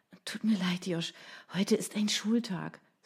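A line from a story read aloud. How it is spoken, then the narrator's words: Sighing. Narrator (German): seufzte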